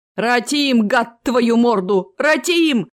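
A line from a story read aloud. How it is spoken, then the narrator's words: Deep bass voice. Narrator (Russian): пробасил бот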